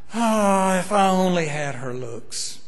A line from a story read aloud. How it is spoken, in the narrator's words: a 38-year-old scrub woman who would sigh